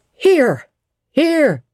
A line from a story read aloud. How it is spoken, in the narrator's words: was shouted in return